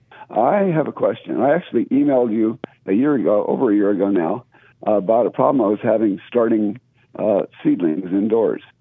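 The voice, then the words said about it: Slightly hoarse voice. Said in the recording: “you sound like you got a little hoarseness going on ... I've got a bit of a sore throat”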